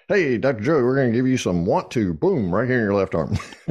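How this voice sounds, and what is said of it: Southern American accent. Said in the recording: “with your southern accent.”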